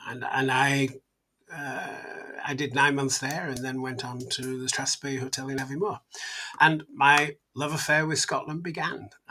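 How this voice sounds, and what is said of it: Scottish-influenced accent, Yorkshire faded. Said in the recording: “your accent has picked up the locality of where you've based yourself, that's for sure ... you definitely don't have the Yorkshire in you anymore, accent-wise”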